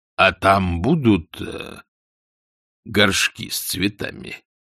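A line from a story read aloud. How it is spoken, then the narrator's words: Slow question. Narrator (Russian): медленно спросил Астфагл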